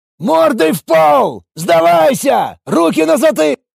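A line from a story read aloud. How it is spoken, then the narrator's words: Soldier shouting. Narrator (Russian): прокричал боец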